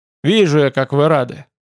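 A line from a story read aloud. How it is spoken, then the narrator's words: Grumbling. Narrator (Russian): проворчал Тор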